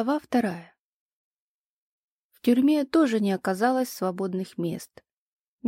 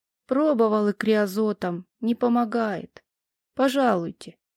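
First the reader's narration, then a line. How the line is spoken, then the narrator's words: Glum. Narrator (Russian): он уныло проговорил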